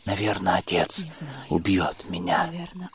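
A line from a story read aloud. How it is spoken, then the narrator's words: Whisper. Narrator (Russian): прошептала она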